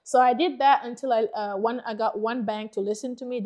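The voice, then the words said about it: Thick foreign accent. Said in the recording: “If you think my accent is thick now”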